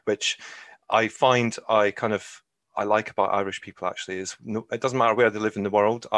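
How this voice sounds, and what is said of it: Scottish accent. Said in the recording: “it might be clear from accent that I'm not Irish, and I'm originally from Scotland”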